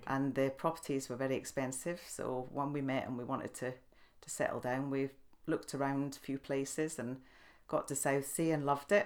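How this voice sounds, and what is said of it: Scottish Edinburgh accent. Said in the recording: “I'm from Edinburgh, which you might know by the accent.”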